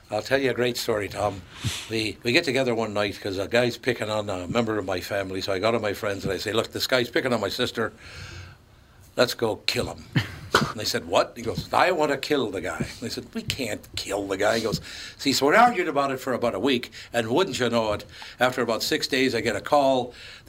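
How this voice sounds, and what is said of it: Put-on Irish accent. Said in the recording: “He's from Ireland, obviously... I thought he was from France... By the accent.”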